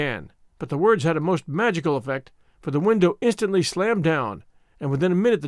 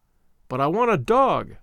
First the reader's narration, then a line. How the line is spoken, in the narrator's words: I cried